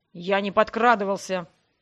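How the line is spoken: Snarled. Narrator (Russian): рыкнул Ян

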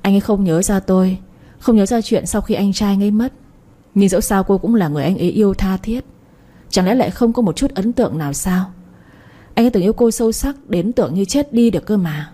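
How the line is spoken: Sighing, sad laugh. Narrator (Vietnamese): thở dài một tiếng rồi cười buồn

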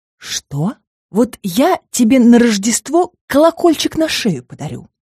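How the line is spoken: Hiss. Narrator (Russian): прошипел я

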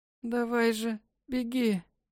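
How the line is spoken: Hoarse, mother. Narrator (Russian): Прохрипела мать

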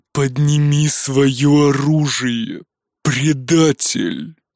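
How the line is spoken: Growling. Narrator (Russian): прорычал он

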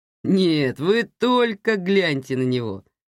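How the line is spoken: Laughing. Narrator (Russian): хохотал водитель

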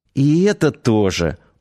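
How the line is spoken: Tired sigh, smiling. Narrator (Russian): улыбнувшись, устало вздохнула Надя

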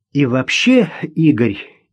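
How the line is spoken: Deep breath, determined blurt. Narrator (Russian): Ирина глубоко вздохнула и решительно выпалила

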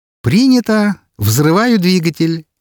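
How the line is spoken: Joyful laughter. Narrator (Russian): радостно рассмеялась Мира

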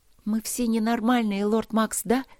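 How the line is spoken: Loud whisper. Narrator (Russian): громко зашептала она

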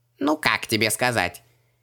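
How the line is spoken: Vague snort. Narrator (Russian): неопределенно хмыкнул Джин

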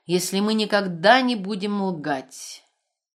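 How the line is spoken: Loud repetition. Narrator (Russian): повторила она громко

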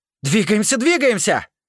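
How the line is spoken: Yelling at full strength. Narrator (Russian): Орал я, что есть силы

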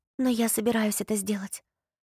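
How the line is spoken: Whisper. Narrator (Russian): прошептала Поппи

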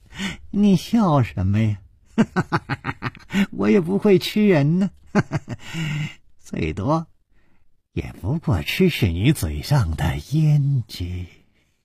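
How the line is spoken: Cheerful grinning, no sorrow. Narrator (Chinese): 脸上更是没有丝毫的悲戚的神色，反而笑嘻嘻地说

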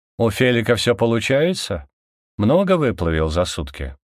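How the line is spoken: Calm question. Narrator (Russian): Спокойным тоном на контрасте эмоциональности Никея спросил я

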